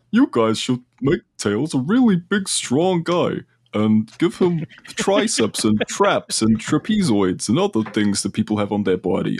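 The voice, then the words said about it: Exaggerated American accent, cartoonish voice. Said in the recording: “This is my really good American accent. ... When you say in the Fred Flintstone voice”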